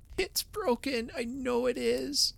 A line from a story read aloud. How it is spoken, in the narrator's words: wailed the small sufferer